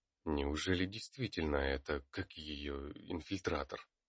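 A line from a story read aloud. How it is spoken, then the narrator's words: Quiet mutter. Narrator (Russian): Пробормотал тихо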